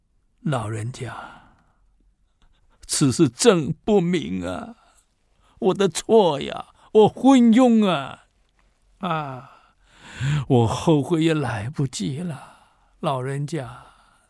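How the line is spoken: Ashamed, tearful, very quiet. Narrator (Chinese): 唐玄宗被这老人家教训了一顿了，满脸通红啊，流着泪啊，很小声的说

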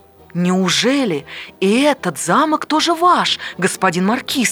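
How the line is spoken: Exclaiming. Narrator (Russian): воскликнул король

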